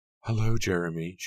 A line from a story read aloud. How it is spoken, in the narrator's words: she cried